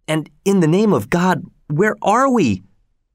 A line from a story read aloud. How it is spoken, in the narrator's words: cried Keola